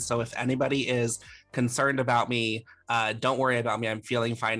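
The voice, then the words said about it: Voice altered by a cold. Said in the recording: “my voice is a little different this episode, but I do have a little bit of a cold”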